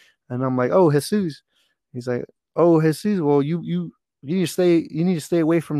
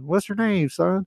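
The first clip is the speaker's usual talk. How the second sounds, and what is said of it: Big Southern accent. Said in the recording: “he had a big Southern accent.”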